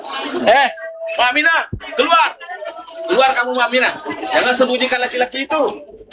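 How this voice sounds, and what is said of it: Angry shouting. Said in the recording (Indonesian): “Kenapa dia teriak-teriak, Mak? ... Mak juga nggak tahu kenapa dia teriak-teriak”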